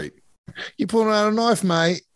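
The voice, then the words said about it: Put-on Australian accent. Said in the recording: “they actually sound like they had an Australian accent.”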